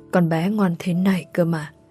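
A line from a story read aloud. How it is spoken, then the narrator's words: Muttering. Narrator (Vietnamese): Bác Mùi lẩm bẩm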